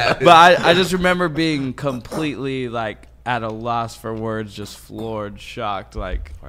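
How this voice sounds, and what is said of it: Usual voice. Nothing is said of it.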